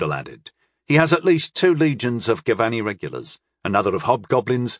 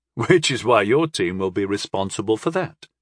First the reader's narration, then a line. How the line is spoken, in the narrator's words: I chuckled